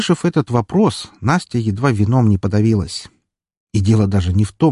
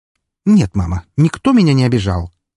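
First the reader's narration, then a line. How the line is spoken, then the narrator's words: Snorting. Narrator (Russian): фыркнула Настя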